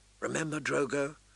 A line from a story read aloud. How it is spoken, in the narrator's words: she whispered